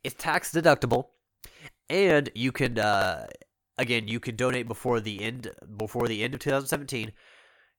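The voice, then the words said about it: Stuffy, congested nasal voice. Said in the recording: “my nose is a little stuffy. I'm talking like a Muppet right now.”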